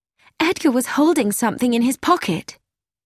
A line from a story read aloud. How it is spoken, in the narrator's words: Gina said sharply